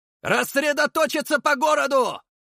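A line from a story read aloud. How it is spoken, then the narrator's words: Loud commanding shout. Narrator (Russian): заорал я командным голосом, чтобы услышали все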